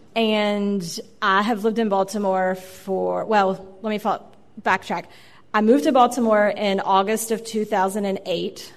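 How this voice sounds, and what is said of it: Slight southwestern Virginia accent. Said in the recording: “I am originally from southwestern Virginia. I'm sure you can detect my accent a little bit”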